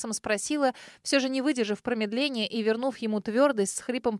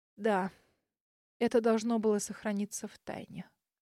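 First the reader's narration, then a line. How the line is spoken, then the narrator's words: Breathless, frightened. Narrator (Russian): выдохнула миссис Джоан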